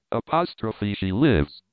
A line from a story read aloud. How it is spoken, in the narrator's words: cried Tarzan